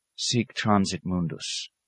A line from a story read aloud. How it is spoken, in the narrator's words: he murmured